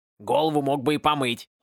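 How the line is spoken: Grumbling. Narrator (Russian): проворчала шляпа

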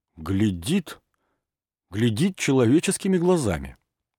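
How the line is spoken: Astonished. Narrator (Russian): произнес изумленным голосом

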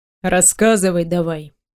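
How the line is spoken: Stern tone. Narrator (Russian): произносит уже строгим тоном

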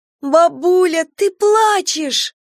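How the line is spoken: Joyful yell. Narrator (Russian): заорала Настя радостно

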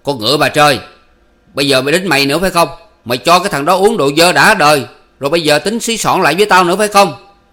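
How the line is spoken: Roaring. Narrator (Vietnamese): Chính Thuộc gầm lên

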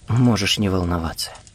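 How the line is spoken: Quiet. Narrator (Russian): тихо сказала она

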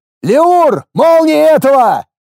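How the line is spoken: Shouted order. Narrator (Russian): крикнул я

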